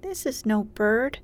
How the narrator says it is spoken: he said in a scared voice

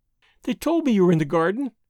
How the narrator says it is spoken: she went on, prattling merrily

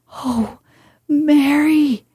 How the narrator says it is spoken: he cried out with a half sob

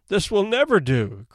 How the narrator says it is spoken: cried Rebecca

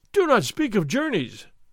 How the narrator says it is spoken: Don Diego cried

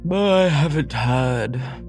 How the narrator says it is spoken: said the man with the large chin, yawning again

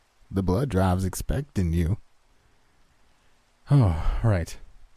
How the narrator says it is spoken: I said wearily

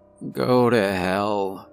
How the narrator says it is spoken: I slurred out as I felt my consciousness fade

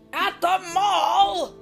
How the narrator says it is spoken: Papa shouted

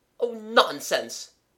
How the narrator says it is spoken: said the voice sharply

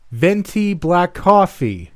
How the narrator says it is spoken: I shouted in a Starbucks

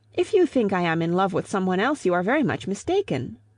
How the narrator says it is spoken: She cried

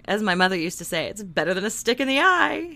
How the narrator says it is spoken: he chuckled

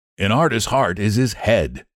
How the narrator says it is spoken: replied Trevor

